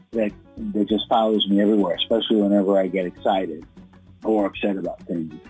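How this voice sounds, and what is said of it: Latino East Coast accent. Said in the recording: “I have this like Latino East Coast accent”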